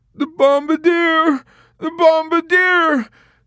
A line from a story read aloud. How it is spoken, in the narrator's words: Dobbs cried